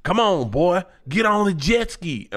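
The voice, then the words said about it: Put-on Southern accent. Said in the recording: “she starts talking in a southern accent”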